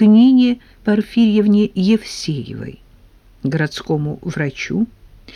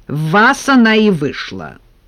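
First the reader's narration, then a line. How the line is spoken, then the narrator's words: Angry reply. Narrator (Russian): сердито ответила Нина Порфирьевна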